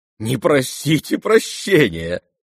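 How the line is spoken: Laughing. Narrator (Russian): засмеялась Настасья Филипповна

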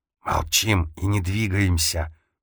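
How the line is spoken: Hissed. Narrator (Russian): прошипел Фарас

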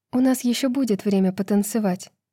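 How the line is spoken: Plain. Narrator (Russian): сказала она Руну

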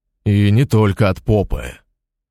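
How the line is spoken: Restless continued growling. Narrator (Russian): продолжал рычать неугомонный Шалов, никак не успокаиваясь

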